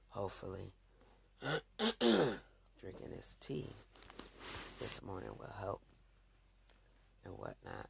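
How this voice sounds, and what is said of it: Rough, scratchy voice. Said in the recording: “I know I sound a little rough because it's early morning and my voice is a little scratchy”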